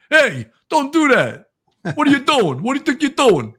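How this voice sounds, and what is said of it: Put-on Brooklyn accent, intimidating. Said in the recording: “Sounds like the Brooklyn's coming out. ... I have to come out with some little Brooklyn accent and intimidate them a little bit.”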